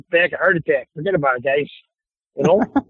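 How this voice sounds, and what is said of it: Put-on Chicago accent. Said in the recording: “You want Chicago? I give you Chicago.”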